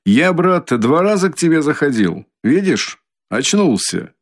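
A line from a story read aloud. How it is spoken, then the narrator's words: Shout. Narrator (Russian): крикнул Разумихин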